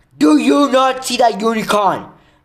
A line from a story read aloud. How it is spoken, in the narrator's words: Ferenc bellowed at Bane